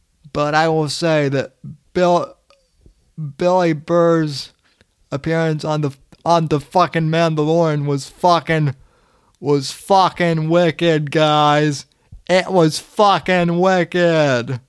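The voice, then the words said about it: Attempted Boston accent. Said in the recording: “I'm not going to do a good Boston accent, but I'll fucking try.”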